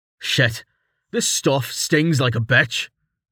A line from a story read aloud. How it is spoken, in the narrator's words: Quiss groaned as he stood, his shirt soaked and skin turning red where the liquid touched it